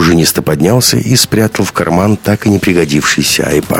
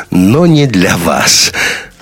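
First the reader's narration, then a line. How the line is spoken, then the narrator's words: Laughing. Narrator (Russian): рассмеялся Бен Ладен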